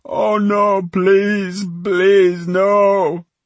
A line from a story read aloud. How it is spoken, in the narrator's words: He dribbled and sobbed and repeated over and over